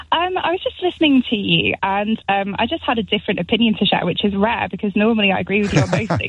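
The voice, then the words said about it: East Midlands English accent. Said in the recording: “you have my favourite accent. Your part of the East Midlands is, for some reason, rooted in my dim and distant past. It's the accent that most warms the cockles of my heart.”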